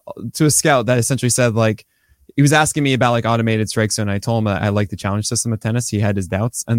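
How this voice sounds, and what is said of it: Usual voice. Nothing is said of it.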